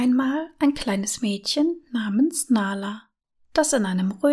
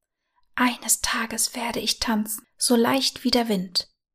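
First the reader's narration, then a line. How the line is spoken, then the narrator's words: Whisper to herself. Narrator (German): flüsterte sie sich selbst zu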